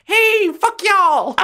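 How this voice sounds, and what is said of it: Put-on American accent. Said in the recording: “I used to have an American accent back then”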